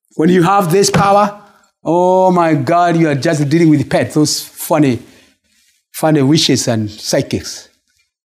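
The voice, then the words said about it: Speaks with a slight accent. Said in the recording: “my little accent”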